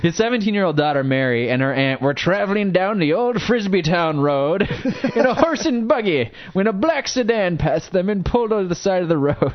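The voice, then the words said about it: Put-on Amish accent sounding Irish. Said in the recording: “I'm going to have to go into Amish voice for this one... That sounds like your Irish voice.”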